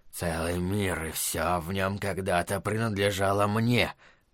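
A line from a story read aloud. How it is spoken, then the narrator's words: Tiger's muttering. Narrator (Russian): бормотал тигр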